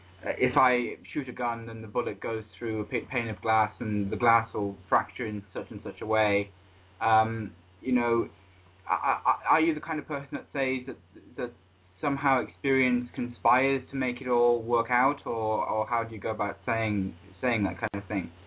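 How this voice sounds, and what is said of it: British accent. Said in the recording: “I noticed the accent. ... England. ... British.”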